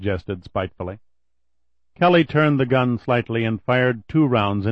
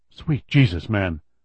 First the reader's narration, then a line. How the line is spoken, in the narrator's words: the voice rasped, knowing that to make any more noise would be death